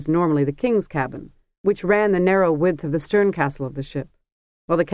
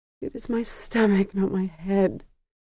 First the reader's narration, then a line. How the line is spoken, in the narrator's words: Sesarach whimpered